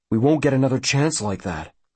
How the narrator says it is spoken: Mackey says sullenly

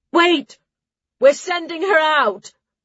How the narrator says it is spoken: Darla shouted from the cave entrance

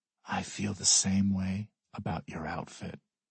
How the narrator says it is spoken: I whisper

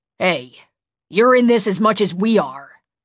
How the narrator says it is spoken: Jen snapped

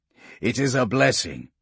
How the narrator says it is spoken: Castor replied, his voice low but tinged with relish

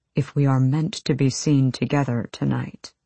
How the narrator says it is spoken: he said so quietly only Irene could hear

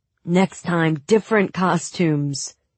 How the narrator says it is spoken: he grumbled

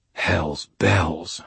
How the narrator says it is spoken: I muttered, frustrated

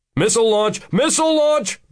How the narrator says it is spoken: Bruce Williams exclaimed

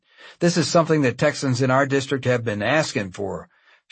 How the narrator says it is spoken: Schaefer said

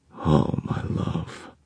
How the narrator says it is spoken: Magnus murmured

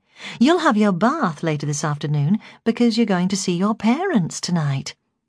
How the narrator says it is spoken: I said brightly

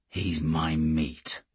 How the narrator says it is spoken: I murmured to Geordie

